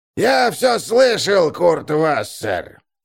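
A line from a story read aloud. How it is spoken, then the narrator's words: Hoarse strained voice. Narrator (Russian): раздался хриплый сорванный голос из-за соседнего стола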